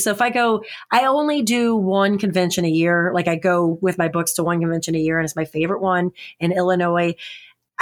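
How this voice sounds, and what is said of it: Naturally raspy voice. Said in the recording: “as you can hear, a raspy voice naturally... I sounded like this at 4 years old”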